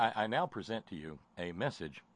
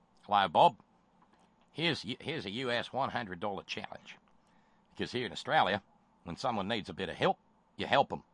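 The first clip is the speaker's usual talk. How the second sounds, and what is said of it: Poor put-on Australian accent. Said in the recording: “my terrible Australian accent because he's written it in Australian dialect”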